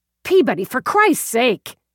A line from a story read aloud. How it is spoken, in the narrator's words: Dallas snapped